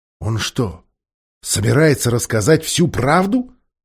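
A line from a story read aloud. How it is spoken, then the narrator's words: Terrified, angry growl. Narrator (Russian): Послышалось рычание, полное ужаса и гнева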